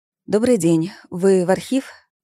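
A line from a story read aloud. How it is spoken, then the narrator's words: Trembling voice. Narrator (Russian): спросила я дрожащим голосом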